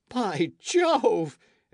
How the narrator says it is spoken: exclaimed Michel

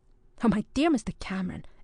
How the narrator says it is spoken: exclaimed young Aveling with vivacity

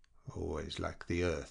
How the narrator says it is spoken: she murmured

